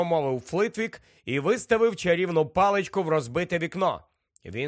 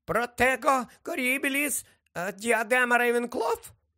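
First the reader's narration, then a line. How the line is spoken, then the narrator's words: Squeaked. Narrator (Ukrainian): пропищав Флитвік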